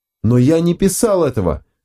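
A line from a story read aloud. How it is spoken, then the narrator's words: Yelling again. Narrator (Russian): вновь завопил Бернард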